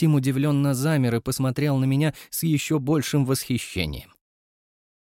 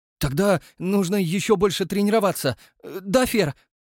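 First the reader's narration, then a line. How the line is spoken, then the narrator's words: Cheerful question. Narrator (Russian): радостно спросил Демидов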